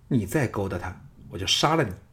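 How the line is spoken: Low angry. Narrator (Chinese): 单柔 低声怒道

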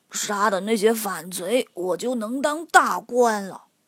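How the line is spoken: Mumbling. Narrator (Chinese): 伯仁嘴里嘟嘟囔囔地说

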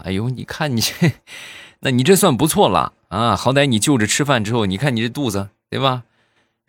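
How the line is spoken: Laughing hard. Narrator (Chinese): 那个人也也笑坏了

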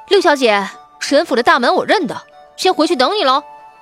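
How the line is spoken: Smiling. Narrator (Chinese): 他扬唇一笑，道

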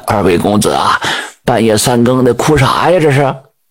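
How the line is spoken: Scholar sighing. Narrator (Chinese): 姓杨那个书生叹了一口气

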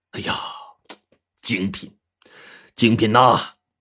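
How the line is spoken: Admiring exclamation. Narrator (Chinese): 柯市长赞叹呐

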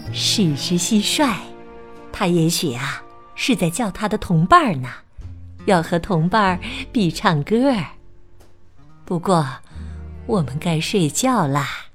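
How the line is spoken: Soft, gentle. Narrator (Chinese): 巴迪轻声的回答说

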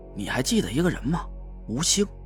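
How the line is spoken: Low whisper. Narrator (Chinese): 我凑近他的耳朵，压低了声音

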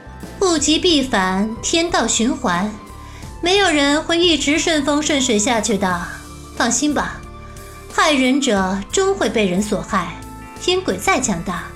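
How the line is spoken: Calm, indifferent. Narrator (Chinese): 白姬淡淡道

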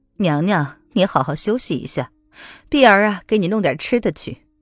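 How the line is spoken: Cold laugh. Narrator (Chinese): 冷冷的一笑

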